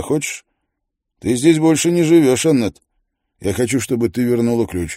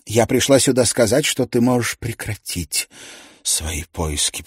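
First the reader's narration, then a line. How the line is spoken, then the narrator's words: Muttering. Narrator (Russian): пробормотала она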